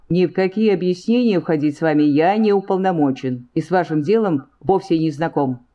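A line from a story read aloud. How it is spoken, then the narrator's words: Firm, officer. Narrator (Russian): твердым голосом ответил офицер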